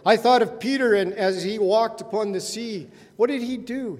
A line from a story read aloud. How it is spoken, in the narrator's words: He called out